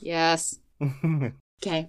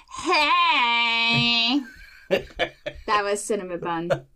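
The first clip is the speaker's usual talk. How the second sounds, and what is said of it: Cartoonish character voice. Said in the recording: “It reminds me of Linda from Bob's Burgers.”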